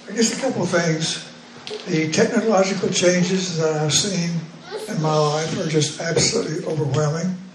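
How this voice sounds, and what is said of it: Weak, failing voice. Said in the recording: “My voice is not holding up very well”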